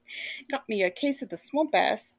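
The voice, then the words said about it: Odd Scottish-Australian put-on accent. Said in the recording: “I don't know what that accent was. It was like, ... Scottish and Australian or something.”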